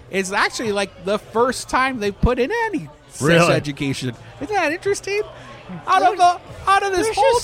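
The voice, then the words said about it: Voice rising higher in pitch. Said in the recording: “My voice is getting higher because I don't understand.”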